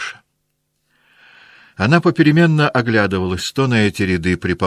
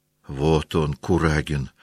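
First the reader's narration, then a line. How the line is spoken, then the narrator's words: Whisper. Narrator (Russian): прошептал Шиншин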